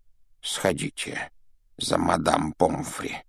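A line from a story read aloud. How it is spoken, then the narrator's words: Whispered request. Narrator (Russian): шепотом попросил Дамблдор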